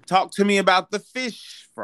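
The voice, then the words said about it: Fake British accent. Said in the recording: “That was my fake British accent.”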